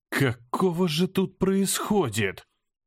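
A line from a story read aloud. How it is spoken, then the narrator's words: Faint breathless exhale. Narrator (Russian): Выдохнул, чувствуя, как ноги снова подкашиваются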